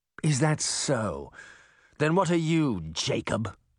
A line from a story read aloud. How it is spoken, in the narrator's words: Nottingham sneered